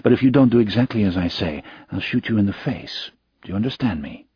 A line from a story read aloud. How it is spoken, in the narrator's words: he whispered in his accented English